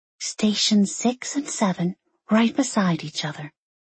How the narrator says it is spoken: Molly whispered to her

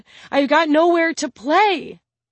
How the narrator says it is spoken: Ahmet blurts out breathlessly

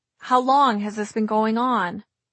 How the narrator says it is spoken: He said the words sadly

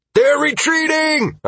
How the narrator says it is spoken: I screamed

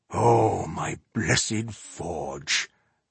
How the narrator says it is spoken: Ihart murmured

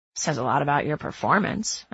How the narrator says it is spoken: I say with a chuckle

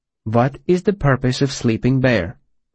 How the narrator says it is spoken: she asked calmly

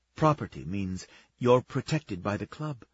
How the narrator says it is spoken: Lana whispered

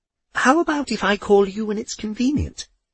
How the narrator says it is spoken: she asked in a bright conversational tone

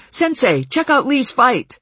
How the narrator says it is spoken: Someone called out sharply

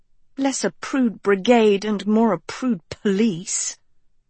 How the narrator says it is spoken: Sophie murmured

